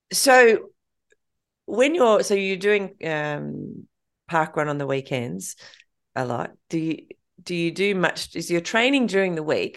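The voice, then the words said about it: Throaty voice with a cold. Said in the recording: “I've got a bit of a cold. ... it's just making me a bit throaty.”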